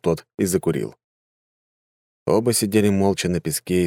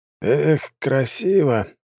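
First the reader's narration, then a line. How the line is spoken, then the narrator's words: Sighing. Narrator (Russian): вздохнул ученый Дон Ровен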